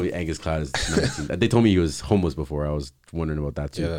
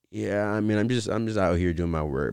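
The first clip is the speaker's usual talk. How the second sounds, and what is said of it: Flat monotone imitation of another person. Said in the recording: “That's how he sounds, though. ... monotone”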